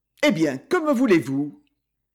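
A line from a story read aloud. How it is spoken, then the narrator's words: Impatient tone. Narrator (French): il dit d'un ton impatienté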